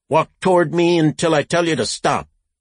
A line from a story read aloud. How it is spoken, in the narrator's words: The cop shouted